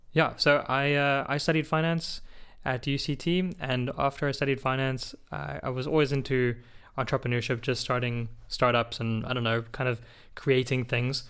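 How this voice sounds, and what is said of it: South African accent, slightly American. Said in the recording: “I was born in South Africa, but I spent some, you might hear some American in the accent, I spent some time in the US, mostly in South Florida, Miami.”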